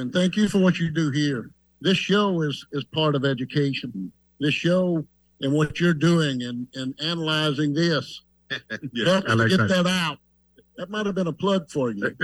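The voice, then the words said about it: Southern US drawl. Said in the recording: “I hear that southern drawl in your voice.”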